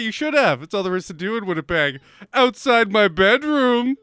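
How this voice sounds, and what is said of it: Usual voice. Nothing is said of it.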